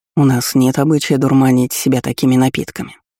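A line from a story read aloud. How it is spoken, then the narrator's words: Calm explanation. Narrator (Russian): спокойно объяснил командир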